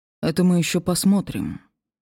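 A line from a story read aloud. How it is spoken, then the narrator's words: Gloomy reply. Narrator (Russian): мрачно ответил Серж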